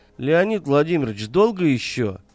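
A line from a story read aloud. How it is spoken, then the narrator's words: Lazy question. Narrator (Russian): лениво спросил он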